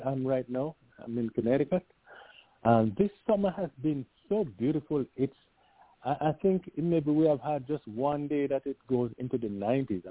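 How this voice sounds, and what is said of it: Hoarse voice. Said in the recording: “right now I'm hoarse ... now I'm now I'm hoarse”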